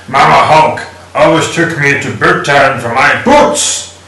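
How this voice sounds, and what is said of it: Hulk impression. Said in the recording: “Hulk impersonation. ... That was good.”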